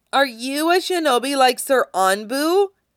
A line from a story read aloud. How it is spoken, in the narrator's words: asks, loudly enough to catch his attention